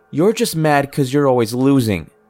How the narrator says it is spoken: would shout

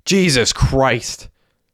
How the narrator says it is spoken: yelled Derek

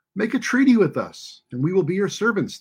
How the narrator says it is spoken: they pleaded

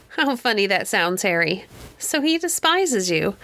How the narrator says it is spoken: burst into another merry peal of laughter

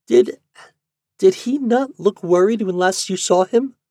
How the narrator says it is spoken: Yuli asked, timidly

